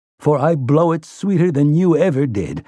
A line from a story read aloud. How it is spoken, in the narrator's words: he tells Roland, laughing